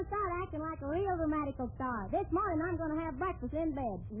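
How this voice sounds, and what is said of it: Usual voice. Nothing is said of it.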